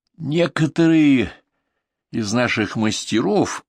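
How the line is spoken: Resolute exhale. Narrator (Russian): выдохнул, словно на что-то решившись, металлург

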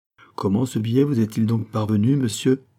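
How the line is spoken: Plain. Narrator (French): demanda le major

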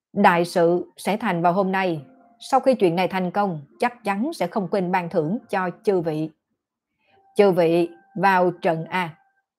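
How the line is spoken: Raised proclaiming voice. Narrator (Vietnamese): Vị Tôn Đại Sư kia cất cao giọng nói

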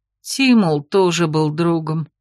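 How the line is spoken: Bitter sigh. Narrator (Russian): горько вздохнул Хангро

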